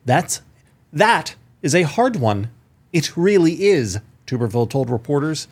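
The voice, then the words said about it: New reading voice, almost British. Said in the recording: “Almost British in this new voice of yours.”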